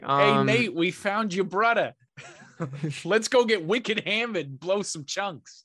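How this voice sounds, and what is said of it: Put-on Boston accent. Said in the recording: “a Bostonian accent”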